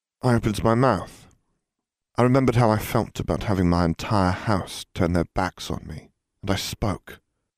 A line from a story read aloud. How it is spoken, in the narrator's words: Harry explained calmly